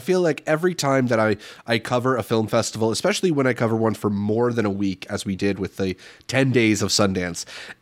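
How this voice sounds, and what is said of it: Congested, slightly stuffy voice. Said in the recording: “hear it in my voice, I'm a little congested”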